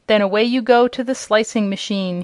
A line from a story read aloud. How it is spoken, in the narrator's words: he cried